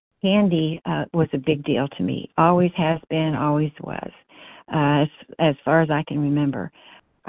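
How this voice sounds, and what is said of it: Shaky voice. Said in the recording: “my voice is, I call it my COVID voice. It's kind of shaky tonight.”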